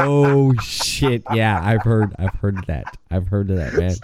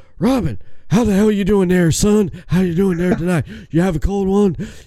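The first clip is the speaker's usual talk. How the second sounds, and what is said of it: Imitates another person's voice. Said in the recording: “talk like Stone Cold Steve Austin right now”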